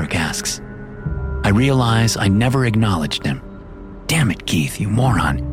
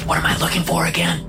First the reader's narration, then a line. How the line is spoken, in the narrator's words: I whisper